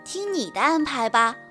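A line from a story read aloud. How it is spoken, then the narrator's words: Sighing. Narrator (Chinese): 小猪叹了口气说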